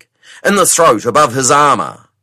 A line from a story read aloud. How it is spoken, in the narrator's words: cried Jani Beg